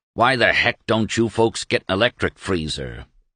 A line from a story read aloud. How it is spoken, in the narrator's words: he growled